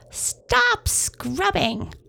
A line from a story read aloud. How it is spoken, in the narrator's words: Long Nose yelled